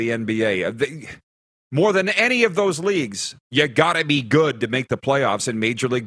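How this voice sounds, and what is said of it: Usual voice. Nothing is said of it.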